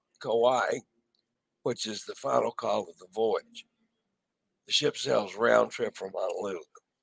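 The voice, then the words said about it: Worn-out, strained voice. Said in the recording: “As you can tell, my voice is about shot... Been through a lot of usage here in the last couple days.”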